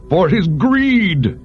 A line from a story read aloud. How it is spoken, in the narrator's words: the man shouted in answer to his own question